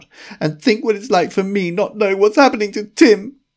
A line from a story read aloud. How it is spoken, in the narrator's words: to shout